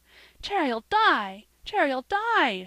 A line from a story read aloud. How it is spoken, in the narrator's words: she cried